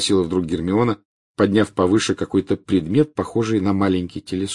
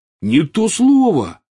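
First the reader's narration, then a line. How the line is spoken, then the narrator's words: Exclaiming. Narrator (Russian): воскликнул Рон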